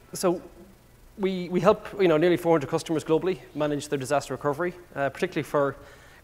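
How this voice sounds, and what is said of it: Fast-talking Irish accent. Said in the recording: “as you can probably tell by my accent, I'm, I'm not from around here. ... I do speak quite fast, by the way, as well, which is an Irish thing”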